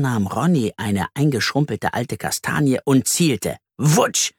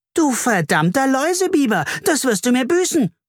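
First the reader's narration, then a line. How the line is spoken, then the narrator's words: Screaming. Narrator (German): schrie Carla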